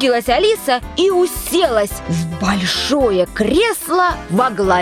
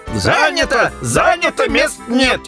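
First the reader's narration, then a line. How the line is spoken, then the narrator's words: Shouting. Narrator (Russian): они закричали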